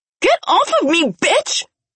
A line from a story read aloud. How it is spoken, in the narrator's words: She screamed